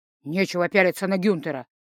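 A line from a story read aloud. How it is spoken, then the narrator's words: Hiss. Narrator (Russian): прошипел он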